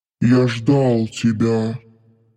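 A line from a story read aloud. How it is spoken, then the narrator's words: Displeased growl. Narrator (Russian): Недовольно прорычал Дармат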